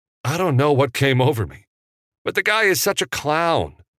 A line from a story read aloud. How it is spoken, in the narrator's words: Evan blurted out